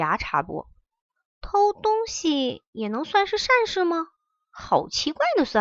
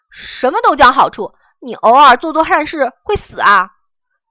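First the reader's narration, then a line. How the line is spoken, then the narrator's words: Angry roar. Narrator (Chinese): 红心吼道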